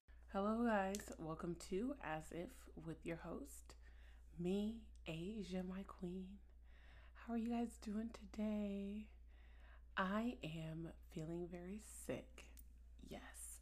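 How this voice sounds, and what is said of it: Whispering. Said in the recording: “why am I whispering like this?”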